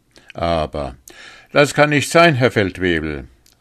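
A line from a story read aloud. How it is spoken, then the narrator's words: Called out, male soldier. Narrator (German): rief der Sergeant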